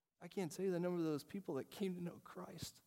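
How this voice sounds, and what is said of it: Choked-up, emotional voice. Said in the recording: “I'm starting to get choked up”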